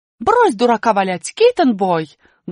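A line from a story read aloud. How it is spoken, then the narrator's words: Loud shout. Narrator (Russian): громко крикнула буква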